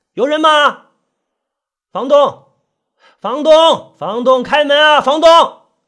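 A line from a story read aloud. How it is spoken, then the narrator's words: Calling out. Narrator (Chinese): 他就喊了一下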